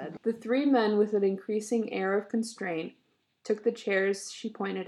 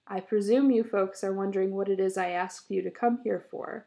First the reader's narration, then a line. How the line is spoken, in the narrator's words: she said in her dead level voice